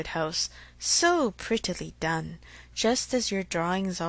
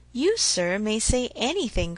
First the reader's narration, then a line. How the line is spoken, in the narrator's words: cried Mr